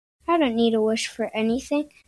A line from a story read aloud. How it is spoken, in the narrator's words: I said